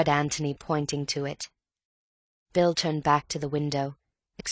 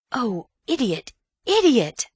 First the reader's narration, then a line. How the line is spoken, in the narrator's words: Antony cried